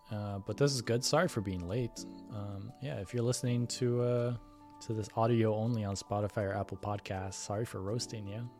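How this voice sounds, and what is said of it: Hoarse, strained voice. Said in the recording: “Kind of losing my voice.”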